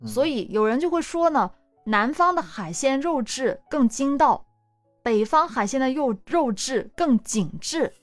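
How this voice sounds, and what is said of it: Northern Chinese accent. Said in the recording (Chinese): “你这一说北方的北方口音都出来了”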